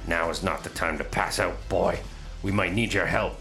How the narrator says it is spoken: he snaps

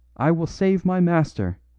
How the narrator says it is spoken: he cried, his eyes blazing maniacally

